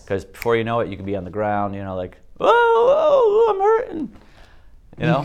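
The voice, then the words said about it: Exaggerated pained groan after falling. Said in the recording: “That's my impression of me when I fall and hit the pavement... that sounds funny”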